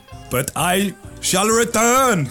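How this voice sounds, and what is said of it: Bad imitation of another person's voice. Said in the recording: “my bad Arnold Schwarzenegger impression”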